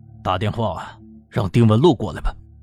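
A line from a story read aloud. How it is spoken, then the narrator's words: Sighing. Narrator (Chinese): 李明耀叹了口气，说道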